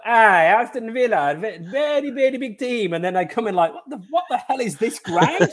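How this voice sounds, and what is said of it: Put-on Italian accent. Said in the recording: “Any Italians watching? ... I don't know what accent that was”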